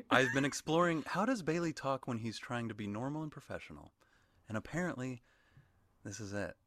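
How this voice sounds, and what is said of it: Affected NPR-style podcast voice. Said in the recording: “Like an NPR? ... NPR guy? ... podcast voice ... it's kind of psychopathic”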